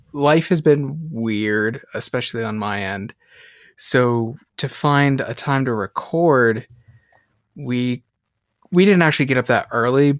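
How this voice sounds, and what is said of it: Gravelly, slow morning voice. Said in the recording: “from the dulcet tones of our voice, it's early for us ... sorry if my voice is a little gravelly or slow.”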